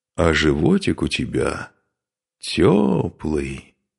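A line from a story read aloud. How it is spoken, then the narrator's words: Drawling. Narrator (Russian): протянул он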